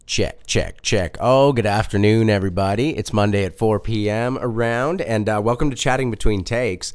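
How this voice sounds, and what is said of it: Hoarse voice from a cold. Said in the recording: “my voice sounds terribly impressive right now, it's because I've actually been battling this cold, actually strep throat”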